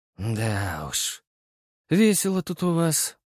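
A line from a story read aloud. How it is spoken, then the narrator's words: Sighing. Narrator (Russian): вздохнул я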